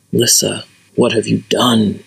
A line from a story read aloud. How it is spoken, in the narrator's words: He whispered again